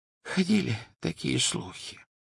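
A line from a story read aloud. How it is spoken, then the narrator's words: Whisper. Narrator (Russian): прошептал Оливандер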